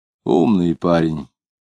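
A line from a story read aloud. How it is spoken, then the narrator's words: Regretful. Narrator (Russian): сказал Кутузов, как будто с сожалением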